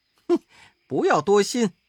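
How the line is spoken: Laughing. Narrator (Chinese): 悟空笑道

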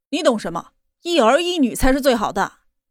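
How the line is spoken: Angry. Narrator (Chinese): 金磊怒道

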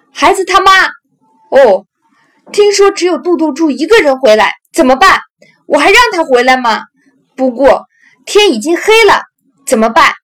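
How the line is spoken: Mock sighing. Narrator (Chinese): 完全了解我心意的妈妈会故意叹息道

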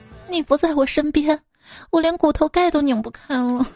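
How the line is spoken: Crying. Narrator (Chinese): 梅超风哭着说

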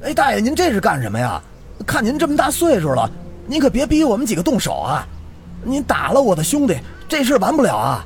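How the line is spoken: Shouting. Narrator (Chinese): 冲着大爷喊道

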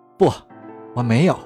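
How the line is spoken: Murmuring. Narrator (Chinese): 弗里克喃喃道

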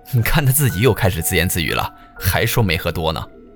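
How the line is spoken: Laughing. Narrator (Chinese): 然后电梯中就有人笑着说

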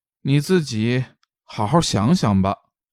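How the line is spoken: Sighing. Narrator (Chinese): 高笑…便叹了口气，说道

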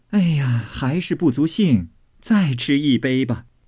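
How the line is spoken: Laughing. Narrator (Chinese): 凤姐笑道

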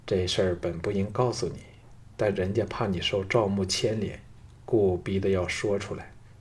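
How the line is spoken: Slow wistful sigh. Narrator (Chinese): 赵雅沉吟片刻后，悠悠一叹说

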